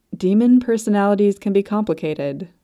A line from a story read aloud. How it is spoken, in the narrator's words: she had said